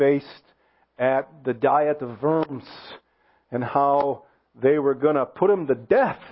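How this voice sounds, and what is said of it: Usual voice. Nothing is said of it.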